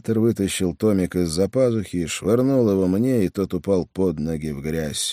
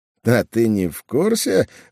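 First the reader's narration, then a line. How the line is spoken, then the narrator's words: Laughing, then coughing. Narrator (Russian): он рассмеялся и тут же закашлялся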